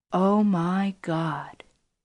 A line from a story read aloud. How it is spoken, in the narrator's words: he said softly